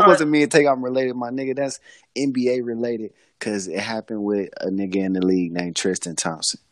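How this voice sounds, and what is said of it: Usual voice. Nothing is said of it.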